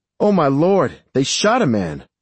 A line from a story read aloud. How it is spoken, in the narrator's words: Mary cried